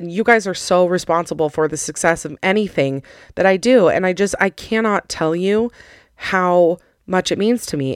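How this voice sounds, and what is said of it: Emotional voice that cracks. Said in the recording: “did you hear my voice cracked?”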